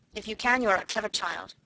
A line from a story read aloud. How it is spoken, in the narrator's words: answered Miss Minchin, drawing in her mouth sharply